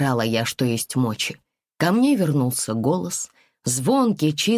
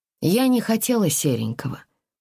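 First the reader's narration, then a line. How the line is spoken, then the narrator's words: Completely calm. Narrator (Russian): продолжила уже абсолютно спокойно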